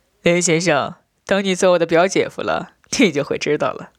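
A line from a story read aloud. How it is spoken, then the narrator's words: Laughing. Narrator (Chinese): 我笑道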